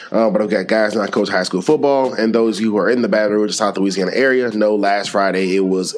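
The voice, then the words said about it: Slightly sick-sounding voice. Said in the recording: “My voice sounds a little weird, coming off of personal note, coming off of small sickness”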